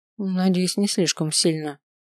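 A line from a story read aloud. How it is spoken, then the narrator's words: Gloomy. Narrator (Russian): мрачно отозвалась я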